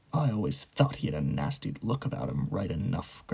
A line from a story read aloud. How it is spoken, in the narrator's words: grunted a man at the bar